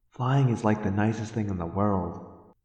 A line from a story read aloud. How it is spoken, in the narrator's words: I said dreamily